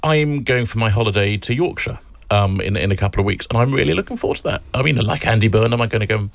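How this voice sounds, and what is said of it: Essex English accent. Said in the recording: “I'm from Essex, as you can tell from the accent.”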